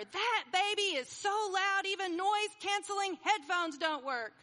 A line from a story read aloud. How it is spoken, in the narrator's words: She yelled to her friend in the seat next to her